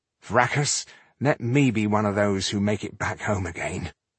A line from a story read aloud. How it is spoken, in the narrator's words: muttered Slynn